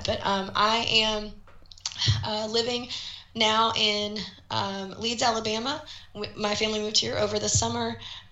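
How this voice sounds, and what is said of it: Rough, sick-sounding voice. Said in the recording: “I'm going to apologize in advance for my voice. I've had the world's worst cold, and I'm getting better, but my voice is still bad.”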